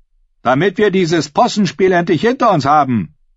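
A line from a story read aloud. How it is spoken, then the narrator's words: Calling out. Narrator (German): rief der Merlin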